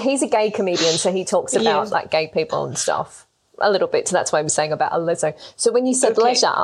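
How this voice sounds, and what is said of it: Usual voice. Nothing is said of it.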